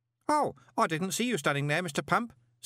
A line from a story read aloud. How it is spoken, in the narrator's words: said Stanley cheerfully